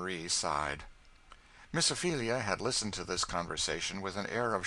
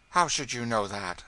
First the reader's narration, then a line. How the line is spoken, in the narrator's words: said Marie sharply